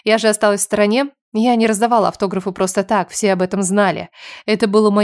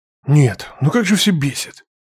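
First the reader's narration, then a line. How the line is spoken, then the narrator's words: Bitter irritated hiss. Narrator (Russian): Второй голос прозвучал с горьким, раздраженным шипением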